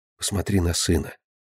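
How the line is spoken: Soft whisper. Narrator (Russian): Марина тихонько шепнула мужу

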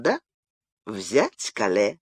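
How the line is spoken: Calm smiling reply. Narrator (Russian): улыбнувшись, спокойно ответил

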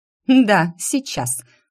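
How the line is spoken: Snorting. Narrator (Russian): фыркнула она

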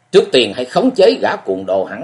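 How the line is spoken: Fierce, angry. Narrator (Vietnamese): Hồng Y Ma Sĩ Lý Long dữ dằn đẩy ra một chưởng giận dữ nói

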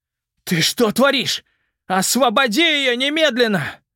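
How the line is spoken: Angry shout. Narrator (Russian): крикнул он в гневе

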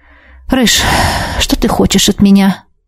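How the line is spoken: Tired question. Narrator (Russian): устало спросила у него

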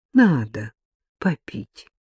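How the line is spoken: Gentle coaxing, as to child. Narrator (Russian): ласково сказал лесник, как говорят детям, которые не хотят принимать горькое лекарство

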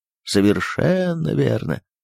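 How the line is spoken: Embarrassed mumbling. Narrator (Russian): в непонятном смущении бормотал

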